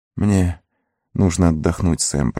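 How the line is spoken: Whisper. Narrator (Russian): прошептал Фродо

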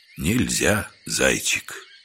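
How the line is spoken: Barely audible. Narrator (Russian): еле слышно сказал дядька

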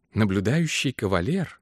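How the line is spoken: Quiet repetition. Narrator (Russian): тихонько повторила его жена

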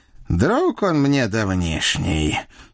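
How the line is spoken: Stern, through gritted teeth. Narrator (Russian): сурово сдвинув брови, процедил мой денщик

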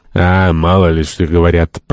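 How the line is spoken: Deep bass voice. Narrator (Russian): пробасил Пен

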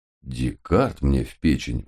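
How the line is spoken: Muttering. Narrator (Russian): пробормотал я

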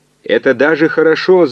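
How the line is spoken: Shout right in ear. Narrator (Russian): заорал инженер в самое ухо координатору

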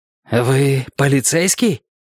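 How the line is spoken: Hoarse question. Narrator (Russian): Наконец хрипло спросила

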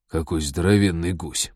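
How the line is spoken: Muttering over intercom. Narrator (Russian): пробормотал Базиль по внутренней связи

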